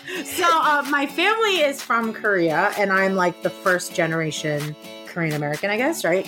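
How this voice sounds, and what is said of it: American English accent. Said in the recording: “my impeccable English accent, or American accent,”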